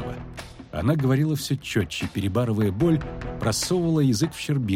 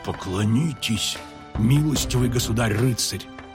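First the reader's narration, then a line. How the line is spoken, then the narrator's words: Hiss. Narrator (Russian): прошипел Фиолетовый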